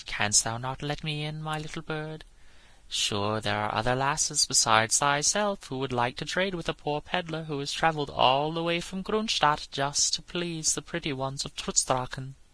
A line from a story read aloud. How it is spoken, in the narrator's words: in a soft, wheedling voice